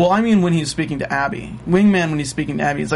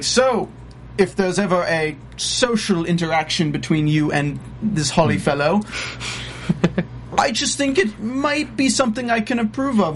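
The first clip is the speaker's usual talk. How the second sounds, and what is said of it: Put-on British accent. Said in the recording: “British accent? That's lovely. I, I, thought I was back home.”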